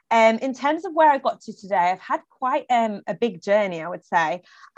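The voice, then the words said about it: Northern English accent. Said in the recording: “originally from Leeds, so you can probably sense the northern twang.”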